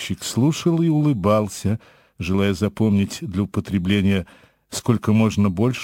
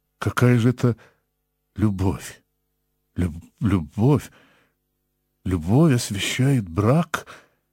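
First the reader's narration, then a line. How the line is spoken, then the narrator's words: Stammering. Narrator (Russian): сказал он, запинаясь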